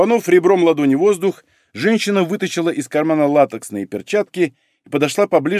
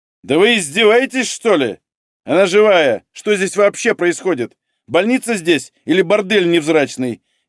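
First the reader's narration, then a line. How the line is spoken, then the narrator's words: Furious shouting. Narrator (Russian): Яростно сдирая перчатки, кричала Надежда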